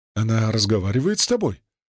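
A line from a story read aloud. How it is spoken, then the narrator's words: Excited question. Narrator (Russian): взволнованно спросила Шуши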